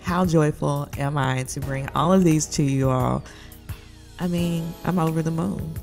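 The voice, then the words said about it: Enthusiastic, less monotone than usual. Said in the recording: “can hear the enthusiasm in my voice. I'm even a little bit outside my monotone.”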